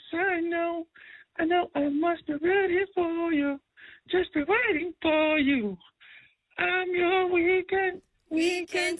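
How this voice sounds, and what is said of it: Singing in falsetto. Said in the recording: “That was my best falsetto I could do coming out of flu season.”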